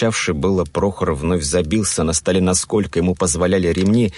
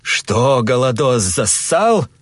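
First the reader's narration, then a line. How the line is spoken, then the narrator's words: Angry shout. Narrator (Russian): зло крикнул Борис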